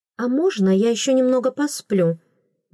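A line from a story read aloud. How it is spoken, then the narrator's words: Forced calm, suppressed irritation. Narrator (Russian): Внесла встречное предложение, стараясь говорить спокойно и не давать волю раздражению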